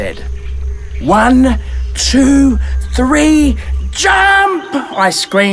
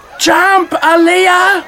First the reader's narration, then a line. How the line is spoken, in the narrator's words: Destiny shouted from the water